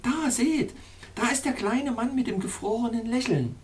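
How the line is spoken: Exclaiming. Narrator (German): rief aus

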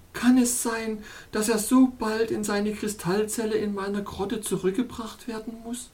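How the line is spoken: Groaning princess. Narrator (German): stöhnte die Prinzessin

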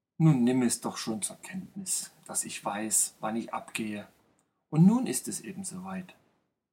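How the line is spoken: Murmured. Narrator (German): murmelte

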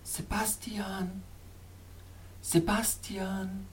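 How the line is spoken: Soft echoing murmur. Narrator (German): murmelte wieder die sanfte, echoartige Stimme, die von den Felswänden neben mir kam

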